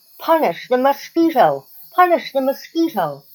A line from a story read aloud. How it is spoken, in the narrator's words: cried all the animals